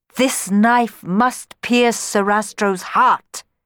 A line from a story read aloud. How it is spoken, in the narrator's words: she thundered